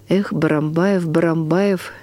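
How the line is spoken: Soft. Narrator (Russian): мягко произнес Бажанов

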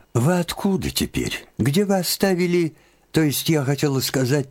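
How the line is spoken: Hurried. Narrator (Russian): торопливо подхватила она

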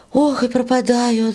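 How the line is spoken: Sigh. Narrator (Russian): вздохнула Варя

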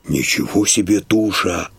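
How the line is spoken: Neighbor muttering. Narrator (Russian): бормочет сосед

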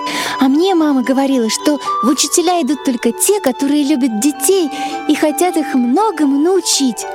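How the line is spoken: Exclaimed. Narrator (Russian): воскликнула Белочка

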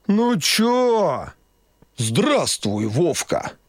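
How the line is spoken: Deep cartoonish old man's voice. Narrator (Russian): пробасил дед голосом мультяшного Деда Мороза

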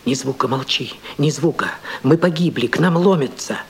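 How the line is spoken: Trembling whisper. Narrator (Russian): трепетный голос шептал мне

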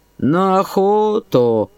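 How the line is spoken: Lazy reply. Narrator (Russian): лениво отвечал он

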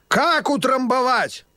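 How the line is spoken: Loud croaking old man. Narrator (Russian): громко каркал старый

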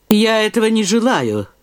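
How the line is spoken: Cold reply. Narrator (Russian): отвечал холодно Волынский

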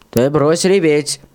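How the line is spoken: Stern. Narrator (Russian): строго сказал Панкрат

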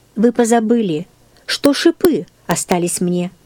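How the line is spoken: Plain. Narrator (Russian): сказал Христос

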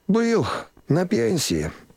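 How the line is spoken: Sighed. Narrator (Russian): вздохнул сосед

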